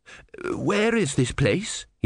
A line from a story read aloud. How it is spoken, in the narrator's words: he said hoarsely